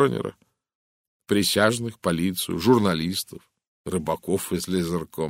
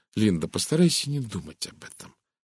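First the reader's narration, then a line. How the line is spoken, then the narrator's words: Soft voice. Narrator (Russian): мягко произнесла Розамунд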